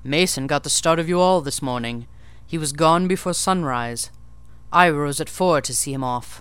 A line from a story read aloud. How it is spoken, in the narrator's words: saying cheerfully